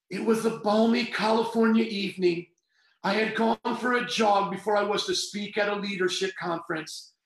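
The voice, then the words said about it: Speaker's own regional accent. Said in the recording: “Let me just read it in my accent here”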